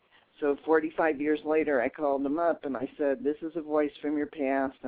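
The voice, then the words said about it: Distinctive voice with noticeable accent. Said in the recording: “My voice is a dead giveaway, ... plus ... the accent.”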